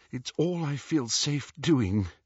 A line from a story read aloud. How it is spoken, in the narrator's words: said Hermione shakily